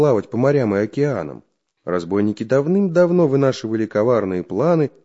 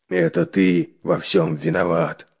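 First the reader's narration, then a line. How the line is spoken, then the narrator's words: Angry growl. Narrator (Russian): прорычал Буль-Буль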